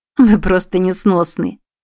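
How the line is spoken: Involuntary laughter. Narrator (Russian): невольно рассмеялась Брет

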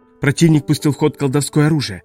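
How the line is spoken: Alarmed exclamation. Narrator (Russian): тревожно воскликнул Элрик

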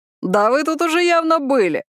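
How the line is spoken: Loud laughter. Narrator (Russian): Хуан расхохотался

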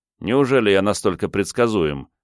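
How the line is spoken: Wry snort. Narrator (Russian): хмыкнул я

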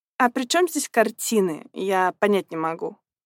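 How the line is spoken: Contemptuous snorting old man. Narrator (Russian): презрительно фыркнул пожилой господин

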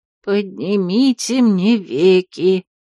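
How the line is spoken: Hoarse, forced joking. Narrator (Russian): прохрипела она, подбадривая себя глупой для этого момента шуткой

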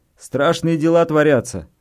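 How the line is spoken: Man shouting over noise. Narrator (Russian): прокричал мужчина, стараясь перекрыть шум бетономешалки

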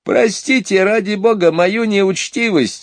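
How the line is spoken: Exclaiming through laughter. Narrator (Russian): воскликнул сквозь смех

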